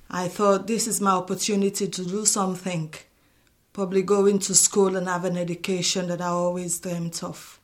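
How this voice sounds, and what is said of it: Mixed African and Liverpool accent. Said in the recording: “my accent hasn't changed. It's just sort of got mixed with the African and the Liverpoolian together.”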